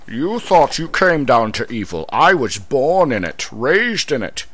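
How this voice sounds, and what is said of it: Bane impression drifting into another voice. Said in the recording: “my Bane impression ... I think it turned into Sean Connery there. So, James Bond as Bane.”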